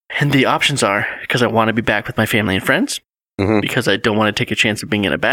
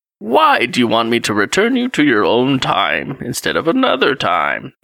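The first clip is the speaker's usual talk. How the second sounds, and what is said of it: Performed old man voice. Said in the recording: “That's my old man voice... It was really good.”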